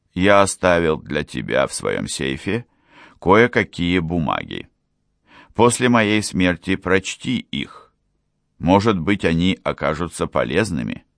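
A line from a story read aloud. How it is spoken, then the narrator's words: Quiet, calm. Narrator (Russian): он тихим, спокойным голосом добавил, обращаясь к Карлу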